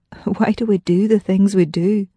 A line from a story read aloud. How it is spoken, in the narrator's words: he chuckled and asked himself